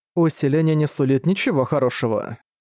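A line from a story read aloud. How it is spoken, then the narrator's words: Dry tone. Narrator (Russian): сухо сказала Миша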